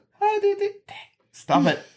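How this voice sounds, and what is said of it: Falsetto voice. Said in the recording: “I'm trying not to do this falsetto thing.”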